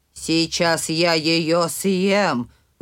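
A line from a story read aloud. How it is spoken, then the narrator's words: Growl. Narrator (Russian): зарычал Михаил Иванович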